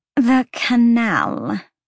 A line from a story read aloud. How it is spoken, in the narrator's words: Sandriel said tightly